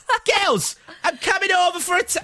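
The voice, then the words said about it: Poor impression, Essex to Newcastle accent. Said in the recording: “that was the worst impression of Gemma Collins I've ever heard in my whole life ... Started Essex, ended in Newcastle.”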